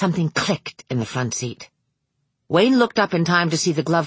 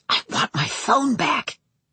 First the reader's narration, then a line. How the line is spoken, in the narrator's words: exhaled a frustrated, fuming breath whispering furiously